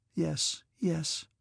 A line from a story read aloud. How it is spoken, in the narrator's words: Natasha murmured, as if in vexation